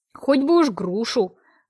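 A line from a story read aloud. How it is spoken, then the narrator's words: Grumbling. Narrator (Russian): ворчала я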